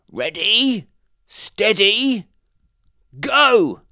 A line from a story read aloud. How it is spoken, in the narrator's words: shouted the badger